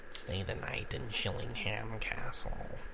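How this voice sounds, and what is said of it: Creepy spooky voice. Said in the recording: “Creepy voice.”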